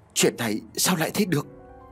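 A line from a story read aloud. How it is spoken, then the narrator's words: Stammering in astonishment. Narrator (Vietnamese): miệng thầy lắp bắp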